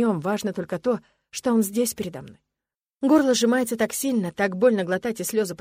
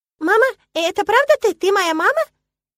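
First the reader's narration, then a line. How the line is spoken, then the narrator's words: Thin high voice, broken English. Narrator (Russian): Интересуется он тонким и высоким голоском на английском языке, допуская ошибки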